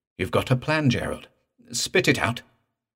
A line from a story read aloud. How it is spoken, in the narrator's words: The doctor suddenly exclaimed